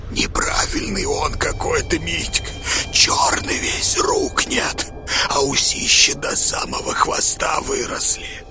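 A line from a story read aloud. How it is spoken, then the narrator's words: Frightening whisper. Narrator (Russian): Бульбуль страшным шепотом заговорил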